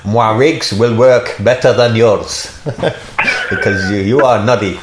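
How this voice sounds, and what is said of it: Put-on French accent. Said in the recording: “French accent, do it. ... for being a bit racist to the French there”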